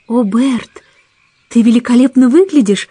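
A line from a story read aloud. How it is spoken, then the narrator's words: Exclaimed. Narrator (Russian): воскликнула Мэри Поппинс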